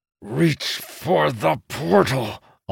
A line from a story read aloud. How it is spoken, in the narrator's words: Amandal said through clenched teeth